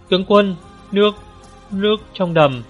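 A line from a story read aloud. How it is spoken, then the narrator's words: Panicked cry. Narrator (Vietnamese): một tên áo đen hoảng hốt kêu lên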